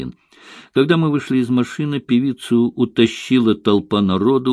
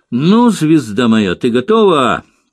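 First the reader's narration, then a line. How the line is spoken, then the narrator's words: Yelling. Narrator (Russian): заорал режиссер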